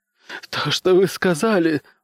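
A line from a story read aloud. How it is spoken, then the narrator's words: Sobbing. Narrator (Russian): зарыдал он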